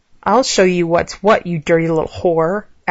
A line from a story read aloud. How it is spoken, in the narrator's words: Alex growled